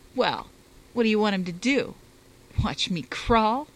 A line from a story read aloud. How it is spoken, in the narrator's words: Douglas asked bitterly